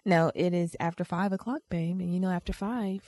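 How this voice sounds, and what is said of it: Put-on sexy voice. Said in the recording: “why do you have your sexy voice on? ... You better talk normal.”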